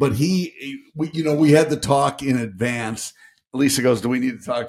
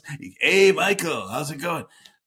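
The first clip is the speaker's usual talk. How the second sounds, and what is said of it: Imitates another person's voice. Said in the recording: “very good Tom Petty impression”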